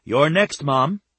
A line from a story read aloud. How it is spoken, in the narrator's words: Stephanie said, laughing at her